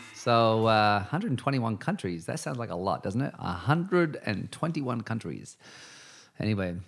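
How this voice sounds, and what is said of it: Usual voice. Nothing is said of it.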